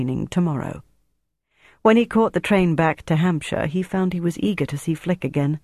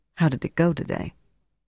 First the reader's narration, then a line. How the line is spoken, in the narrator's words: said quietly